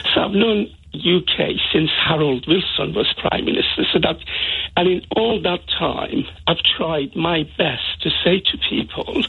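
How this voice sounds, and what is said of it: Strong foreign accent. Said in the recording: “despite my strong accent”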